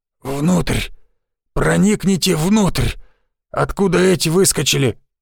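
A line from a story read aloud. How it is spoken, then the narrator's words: Hoarse rasp. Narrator (Russian): прохрипел он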